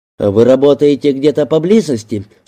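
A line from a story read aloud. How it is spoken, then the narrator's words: Plain. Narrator (Russian): спросил он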